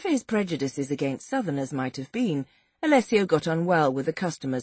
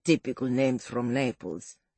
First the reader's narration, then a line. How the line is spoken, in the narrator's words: muttered Alessio